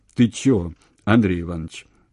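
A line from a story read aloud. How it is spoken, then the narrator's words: Plain. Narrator (Russian): спросил Золотухин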